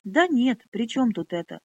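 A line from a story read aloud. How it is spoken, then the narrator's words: Snapping outburst. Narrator (Russian): Снова сорвался он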